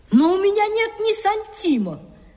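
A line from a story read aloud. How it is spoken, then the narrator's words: Boy's exclamation. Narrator (Russian): воскликнул мальчишка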